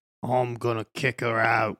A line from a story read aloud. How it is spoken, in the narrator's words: grumbled Hagrid